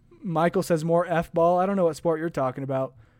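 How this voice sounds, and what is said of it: Yelling, loud strained voice. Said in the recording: “my throat is dying because I'm yelling at you guys”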